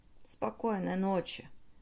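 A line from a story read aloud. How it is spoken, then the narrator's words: Mutter. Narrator (Russian): пробормотал он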